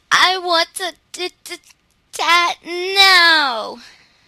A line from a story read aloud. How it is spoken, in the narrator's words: she wailed